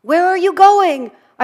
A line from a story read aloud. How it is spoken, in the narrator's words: I wanted to shout out to them